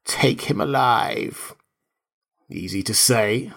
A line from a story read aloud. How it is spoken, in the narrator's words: snarled Strabonus, uneasy